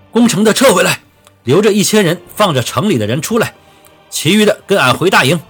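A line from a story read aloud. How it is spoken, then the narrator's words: Loud furious command. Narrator (Chinese): 滚地龙红着眼，大声地吩咐道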